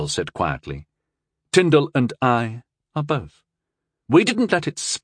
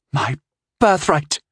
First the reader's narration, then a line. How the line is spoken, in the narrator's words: she said hotly